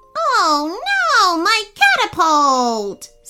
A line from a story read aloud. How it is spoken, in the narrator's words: screeched the coconut crab